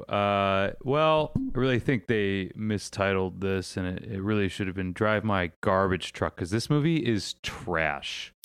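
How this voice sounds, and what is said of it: Lazy imitation of another person's voice. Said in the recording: “That's a really good impression of like a lazy Gilbert Gottfried right there.”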